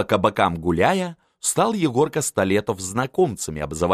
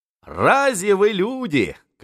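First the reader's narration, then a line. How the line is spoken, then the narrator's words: Shouting. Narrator (Russian): кричал им Столетов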